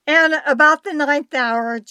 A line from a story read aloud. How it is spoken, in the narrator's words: Jesus cried with a loud voice, saying